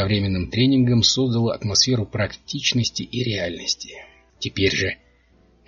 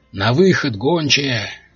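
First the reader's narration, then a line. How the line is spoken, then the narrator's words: Shout. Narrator (Russian): закричал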